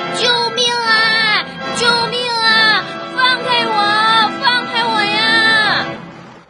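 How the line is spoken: Desperate cries for help. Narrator (Chinese): 小象求救的声音向很远的地方传去

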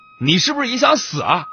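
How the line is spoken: Roaring. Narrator (Chinese): 我……大吼

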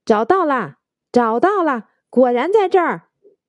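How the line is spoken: Excited shout. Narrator (Chinese): 兴奋的叫起来

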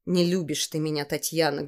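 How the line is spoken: Sad. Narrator (Russian): грустно сказала мама

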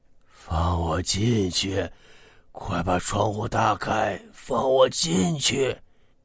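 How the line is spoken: Hoarse voice. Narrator (Chinese): 沙哑的声音

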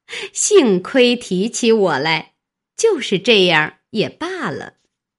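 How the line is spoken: Said laughing. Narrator (Chinese): 凤姐笑道

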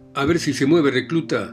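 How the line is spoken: Shouted, corporal. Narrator (Spanish): me gritó el cabo

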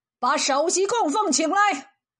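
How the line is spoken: Startled, loud. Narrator (Chinese): 皇上愣了一下，大声说

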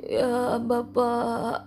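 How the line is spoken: Trembling voice. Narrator (Indonesian): jawab si kacamata dengan suara gemetar

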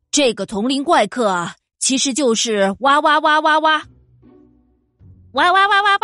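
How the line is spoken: Loud croaking shout. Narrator (Chinese): 青蛙大声叫

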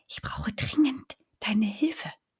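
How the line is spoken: Whisper. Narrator (German): flüsterte Zottel

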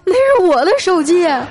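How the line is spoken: Tearful, breaking down. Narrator (Chinese): 我们班主任就崩溃了，带着哭腔说

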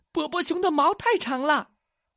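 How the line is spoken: Little mouse crying out. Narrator (Chinese): 另一只小老鼠叫道

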